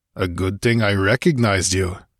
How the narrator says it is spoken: grunted the barbarian

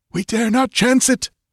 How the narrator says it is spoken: he panted

